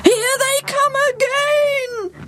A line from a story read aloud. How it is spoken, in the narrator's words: yelled the king